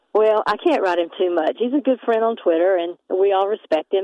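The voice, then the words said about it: Southern US accent, North Carolina. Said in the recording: “What a great accent, too. Aren't you from North Carolina originally?”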